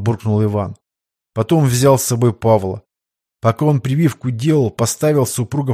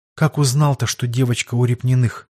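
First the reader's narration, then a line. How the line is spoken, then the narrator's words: Sighing question. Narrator (Russian): вздохнув, спросила Ирина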